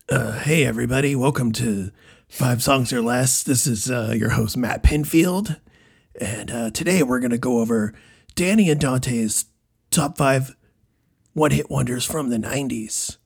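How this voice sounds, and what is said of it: Raspy imitation of another person's voice. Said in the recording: “Let's see if I can do a Matt Pinfield ... I feel like this is a little too raspy ... For Matt Pinfield.”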